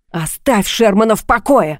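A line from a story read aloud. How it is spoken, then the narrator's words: Barking. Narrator (Russian): снова рявкнул он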